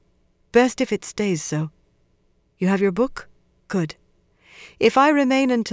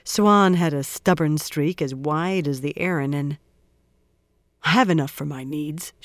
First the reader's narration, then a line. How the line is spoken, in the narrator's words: she grumbled